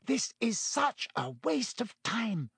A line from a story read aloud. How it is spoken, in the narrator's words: Hermione hissed